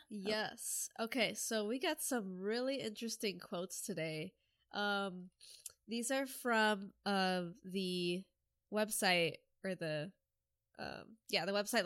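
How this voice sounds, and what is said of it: Congested, stuffed-up voice. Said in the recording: “I'm really congested right now... my voice sounds extra horrible today”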